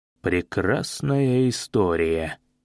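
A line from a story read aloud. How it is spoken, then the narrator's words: Mutter. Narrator (Russian): пробормотал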